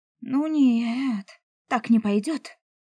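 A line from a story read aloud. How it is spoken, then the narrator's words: Exclaiming. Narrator (Russian): Опять воскликнула я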